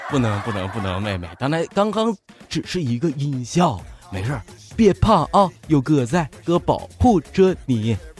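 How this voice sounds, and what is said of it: Northeastern Chinese accent. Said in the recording (Chinese): “我这个这个这个，我这个东北口音啊”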